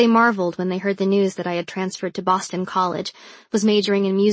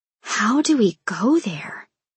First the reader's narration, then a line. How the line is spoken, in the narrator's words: a girl whispered